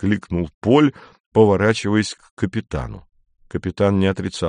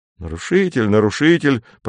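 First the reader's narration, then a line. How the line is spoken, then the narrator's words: Grumbling. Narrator (Russian): проворчал Вальтер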